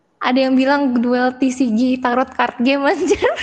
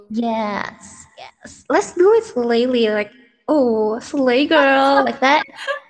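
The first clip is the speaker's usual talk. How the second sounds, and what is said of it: Put-on Valley Girl accent. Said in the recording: “the bitches accent... Valley Girl accent... sangat annoying”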